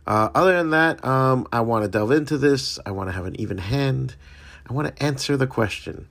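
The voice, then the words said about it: Slightly scratchy voice. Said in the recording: “my voice has been a little scratchy ... I get this really bad itch in the back of my throat”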